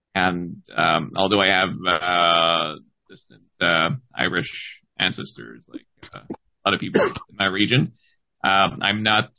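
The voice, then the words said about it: Quebec French-Canadian accent. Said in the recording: “my accent ... I'm totally not Irish. I'm born and raised in eastern Quebec in the Gaspé Peninsula.”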